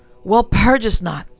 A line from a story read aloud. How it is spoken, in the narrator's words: in an agony of desperation, he cried